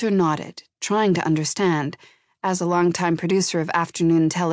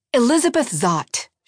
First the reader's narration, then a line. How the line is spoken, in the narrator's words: she barked back